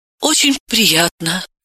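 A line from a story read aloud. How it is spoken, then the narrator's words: Flustered babbling. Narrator (Russian): Левицкая вспыхнула и пролепетала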